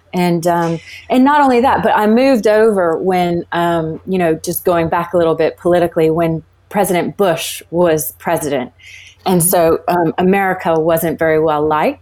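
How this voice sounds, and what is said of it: Transatlantic accent. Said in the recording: “this is why I sound transatlantic”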